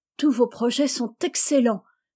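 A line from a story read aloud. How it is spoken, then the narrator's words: Exclaimed. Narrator (French): s'écria Rose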